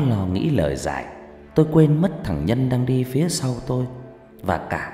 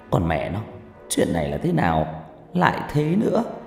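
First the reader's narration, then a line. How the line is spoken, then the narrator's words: Muttered cursing. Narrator (Vietnamese): Tôi lầm bầm chửi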